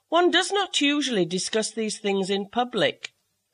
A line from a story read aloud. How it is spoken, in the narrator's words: said Tobermory coldly